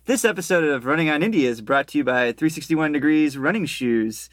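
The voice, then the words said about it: Announcer voice. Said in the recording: “That's my announcer voice.”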